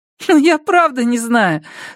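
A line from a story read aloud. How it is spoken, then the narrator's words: Starting to laugh. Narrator (Russian): сказала Эдди, начиная смеяться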